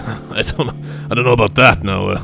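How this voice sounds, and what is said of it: Put-on French accent. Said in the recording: “I'm a Frenchman for some reason now.”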